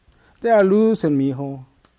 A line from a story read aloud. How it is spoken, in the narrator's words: Papa groans